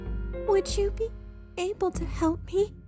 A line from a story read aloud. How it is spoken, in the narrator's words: Merla pleaded in a small voice